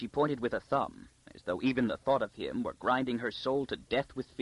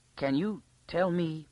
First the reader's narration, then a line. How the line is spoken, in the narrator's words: began Arcadia timidly